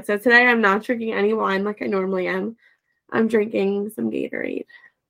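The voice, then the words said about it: Sick-sounding voice with a cold. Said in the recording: “my voice might be a little more annoying than we're used to today ... You sound awful ... it's a cold”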